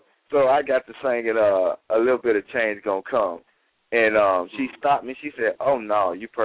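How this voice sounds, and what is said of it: Usual voice. Nothing is said of it.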